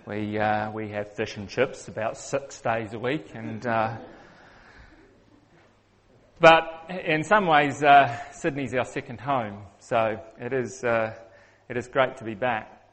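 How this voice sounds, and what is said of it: New Zealand accent. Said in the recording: “I'm a Kiwi, which means I have a funny accent.”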